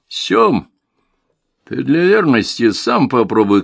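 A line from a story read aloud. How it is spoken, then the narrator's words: Shout amid laughter. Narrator (Russian): крикнул я ему, и все захохотали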